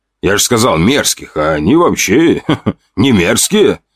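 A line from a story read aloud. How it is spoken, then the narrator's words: Laughing. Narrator (Russian): рассмеялся Басов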